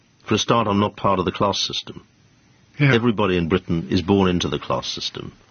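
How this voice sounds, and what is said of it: Distinctive accent outside British class. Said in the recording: “your tongue and accent are very distinctive, but they're not part of the class structure”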